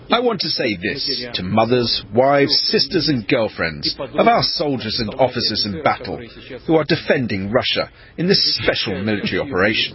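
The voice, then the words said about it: Polished British accent. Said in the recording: “this translator with the fine British accent”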